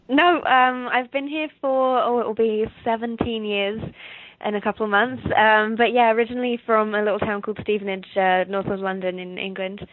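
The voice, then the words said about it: English accent. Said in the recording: “I thought I heard the English accent... It's usually either English or Australian, people guess”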